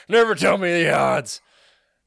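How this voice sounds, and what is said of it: Imitates another person's voice. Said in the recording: “How about that impression? Was it as good as my slurping impression?”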